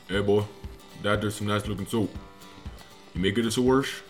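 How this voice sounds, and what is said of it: Cajun Louisiana Southern accent. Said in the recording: “Cajun South ... you from Louisiana? ... your accent”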